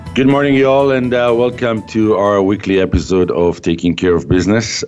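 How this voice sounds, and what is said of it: Sick, under-the-weather voice. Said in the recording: “I don't know if you can hear it from my voice, but I'm a little bit under the weather ... where I caught a cold ... with my new voice”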